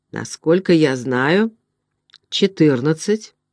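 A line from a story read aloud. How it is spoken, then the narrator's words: Plain. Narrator (Russian): ответил Хедрон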